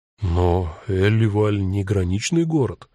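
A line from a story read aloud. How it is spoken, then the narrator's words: Confused remark. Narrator (Russian): растерянно заметил Эду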